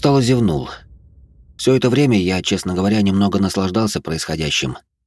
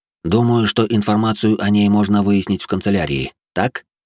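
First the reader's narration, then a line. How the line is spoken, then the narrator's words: Plain. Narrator (Russian): спросил я эпидемиолога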